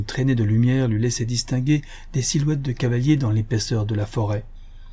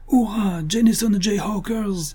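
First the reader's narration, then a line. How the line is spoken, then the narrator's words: Enthusiastic shout. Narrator (French): cria Bill enthousiasmé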